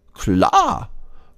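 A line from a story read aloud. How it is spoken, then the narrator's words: Squirrel calling. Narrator (German): ruft das Eichhörnchen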